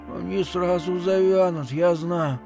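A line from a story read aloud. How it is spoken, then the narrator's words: Strained voice through teeth. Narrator (Russian): отвечала Ики сдавленным голосом сквозь зубы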